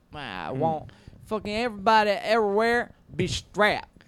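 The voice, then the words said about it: Put-on Southern US accent. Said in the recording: “I have a southern accent for some reason.”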